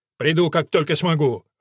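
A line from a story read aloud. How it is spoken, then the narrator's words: Irritated reply. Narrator (Russian): раздраженно ответил он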